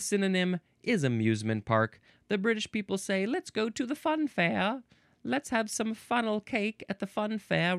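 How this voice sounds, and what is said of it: Poor put-on British accent. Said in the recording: “I'm sorry for my terrible accent. ... Fun to do voices.”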